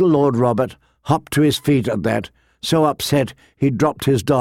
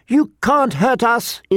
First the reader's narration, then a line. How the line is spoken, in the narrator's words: screamed